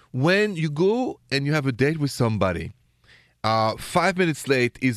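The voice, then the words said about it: French accent. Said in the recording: “my accent is straight from Paris, France”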